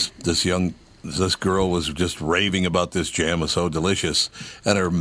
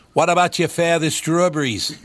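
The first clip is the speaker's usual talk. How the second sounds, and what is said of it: Bad put-on Maine accent. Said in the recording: “That is the worst Maine accent I've ever heard ... it sounds ... Like Mayor Quimby ... it's like New Jersey”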